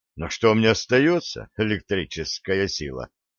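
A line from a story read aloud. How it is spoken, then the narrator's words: Sighing sorcerer. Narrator (Russian): вздохнул ведун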